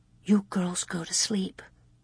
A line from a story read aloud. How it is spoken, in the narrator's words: Ma murmured